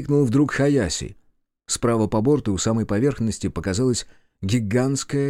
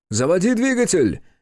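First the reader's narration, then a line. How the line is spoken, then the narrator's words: Shouting. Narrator (Russian): крикнул Кику на Какуре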